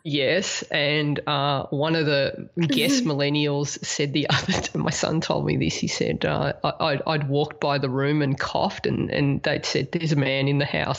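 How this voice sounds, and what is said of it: Deeper than usual voice. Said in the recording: “my voice is a little bit deeper than normal today”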